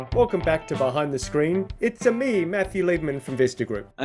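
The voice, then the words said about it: Put-on accent. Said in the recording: “if Chris Pratt can put on an accent, surely I can.”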